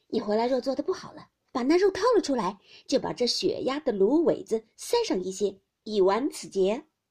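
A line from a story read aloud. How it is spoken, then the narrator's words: Laughing. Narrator (Chinese): 宝钗笑道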